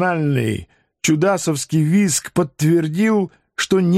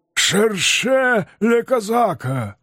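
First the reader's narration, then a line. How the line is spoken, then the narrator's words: Skeletons' hoarse shouting. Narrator (Russian): хрипло кричали скелеты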